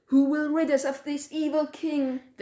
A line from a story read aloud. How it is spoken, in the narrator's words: They cried